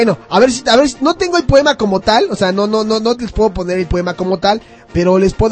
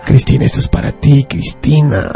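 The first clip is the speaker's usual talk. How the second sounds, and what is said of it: Flirty, coquettish voice. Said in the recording (Spanish): “voy a hacer la voz coqueta”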